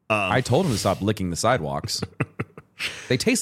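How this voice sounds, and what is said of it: Congested, stuffy-nosed voice. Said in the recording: “you can hear it in my voice. ... my allergies ... my nose is always just runny”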